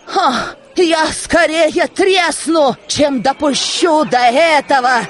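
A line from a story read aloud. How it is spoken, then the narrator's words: Woman shouting. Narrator (Russian): кричала сожительница Солопия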